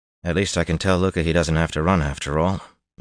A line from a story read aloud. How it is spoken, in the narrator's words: Matt said wearily